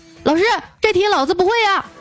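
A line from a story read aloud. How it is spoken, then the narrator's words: Loud, mustering courage. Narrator (Chinese): 我鼓足勇气大声喊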